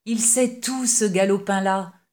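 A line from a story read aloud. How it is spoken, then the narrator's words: Exclaimed. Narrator (French): s'écria-t-il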